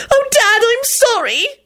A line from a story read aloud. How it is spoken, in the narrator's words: Rosie wailed